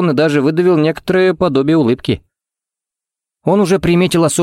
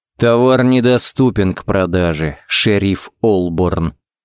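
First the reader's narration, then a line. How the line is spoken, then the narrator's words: Through gritted teeth. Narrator (Russian): процедил он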